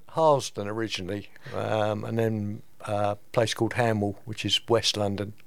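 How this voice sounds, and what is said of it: London accent. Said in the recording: “can't you tell by the accent? ... Where'd you come from? London?”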